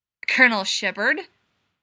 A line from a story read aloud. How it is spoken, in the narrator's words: Gibbs snarled